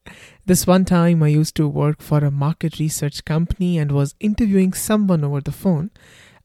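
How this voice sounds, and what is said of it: Thick Indian accent. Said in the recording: “enough people have pointed out that I have a thick Indian accent, as if I'm not aware of it”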